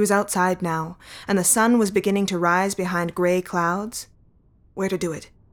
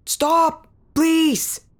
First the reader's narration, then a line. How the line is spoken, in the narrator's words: the mare yelled into the storm, but she could barely make it out as thunder swallowed his words